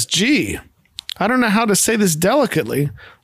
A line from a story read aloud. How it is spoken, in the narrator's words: Leonard chuckles and says